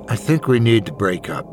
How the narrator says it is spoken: I said

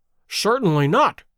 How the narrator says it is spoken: cried Holmes, with decision

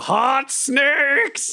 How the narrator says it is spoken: just yell

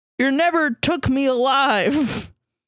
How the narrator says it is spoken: yelled

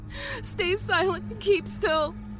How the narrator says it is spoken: She said frantically

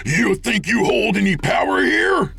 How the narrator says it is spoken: Jake screamed

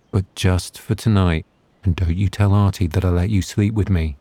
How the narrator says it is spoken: whispered

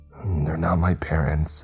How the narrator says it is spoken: choked out

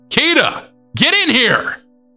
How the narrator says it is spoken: screamed as loudly as my little girl voice would allow

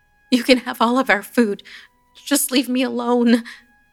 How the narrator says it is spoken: I pleaded

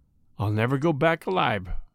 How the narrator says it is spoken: said the burglar quietly

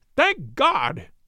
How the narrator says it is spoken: he cried

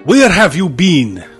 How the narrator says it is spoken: Romani snapped

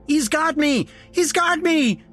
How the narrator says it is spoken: screamed as he collapsed back down

